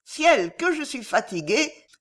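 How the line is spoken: Young lady exclaiming. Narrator (French): s'écria la demoiselle

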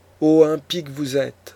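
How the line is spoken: Old man's exclamation. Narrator (French): s'écria le vieillard

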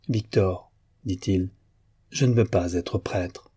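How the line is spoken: Firm, deliberately measured voice. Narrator (French): Demian se recueillit, puis, d'une voix ferme, quoique modérée à dessein

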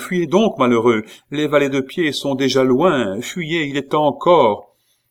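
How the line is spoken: Shouting. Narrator (French): cria-t-elle

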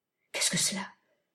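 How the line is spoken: Anxious murmur. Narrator (French): murmura Alice après quelques instants d'inquiétude terrible

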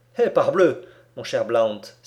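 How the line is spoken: Exclaimed. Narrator (French): s'écria Alcide Jolivet

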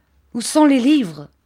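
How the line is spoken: Enraged shout. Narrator (French): s'écria-t-il avec une effroyable expression de rage

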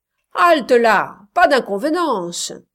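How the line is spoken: Group shouting. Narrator (French): criaient d'autres

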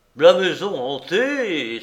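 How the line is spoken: Exclaiming. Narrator (French): s'écria-t-on

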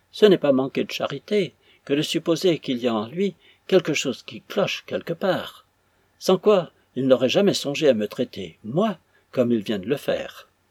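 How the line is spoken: Tearful cry. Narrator (French): s'écria Mademoiselle Fanny d'une voix éplorée

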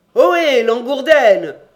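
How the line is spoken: Shouted from upstairs. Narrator (French): cria du haut de l'escalier

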